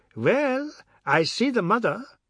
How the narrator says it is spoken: Biswas said happily

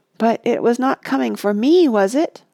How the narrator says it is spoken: faltered Pippin

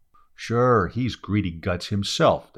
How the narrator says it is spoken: the crew said

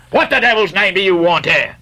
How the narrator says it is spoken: roared the Guernseyman, flying into a sudden passion

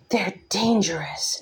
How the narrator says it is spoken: Nesta hissed

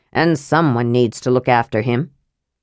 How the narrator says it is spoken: said Flint gruffly

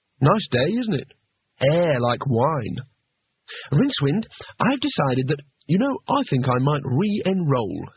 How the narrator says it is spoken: said Rincewind cheerfully

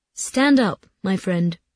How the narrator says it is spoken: he said

